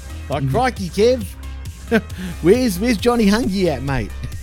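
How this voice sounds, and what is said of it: Exaggerated Australian accent. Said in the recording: “exaggerated Aussie accent compared to like Steve Irwin”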